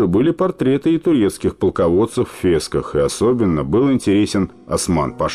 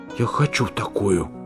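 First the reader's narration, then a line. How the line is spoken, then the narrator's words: Child's whisper. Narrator (Russian): Жоржик раскрыл ротик и прошептал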